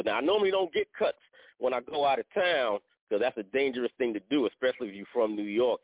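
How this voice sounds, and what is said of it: New York accent. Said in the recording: “New York accent”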